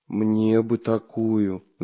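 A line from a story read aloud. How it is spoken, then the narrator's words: Envious sigh. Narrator (Russian): завистливо вздохнул Прутик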